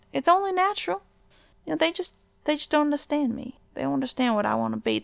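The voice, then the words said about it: Southern American accent. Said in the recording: “I'm just a southern princess. I got a southern accent.”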